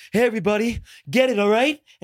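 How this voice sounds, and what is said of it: Breathless imitation of another person. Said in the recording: “everything is always out of breath.”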